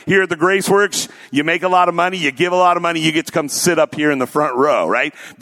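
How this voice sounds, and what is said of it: Sarcastic delivery. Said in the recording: “I was being sarcastic”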